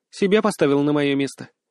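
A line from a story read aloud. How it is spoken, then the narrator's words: Quiet question, young woman. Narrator (Russian): тихо спросила девушка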